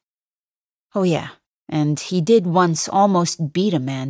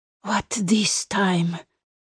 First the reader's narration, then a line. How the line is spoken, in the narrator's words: mutters